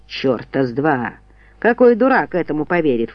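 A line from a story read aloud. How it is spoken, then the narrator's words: Snorting. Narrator (Russian): фыркнул Чарльз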